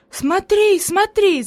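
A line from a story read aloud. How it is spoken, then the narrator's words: Enthusiastic shout. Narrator (Russian): закричала Хайди с энтузиазмом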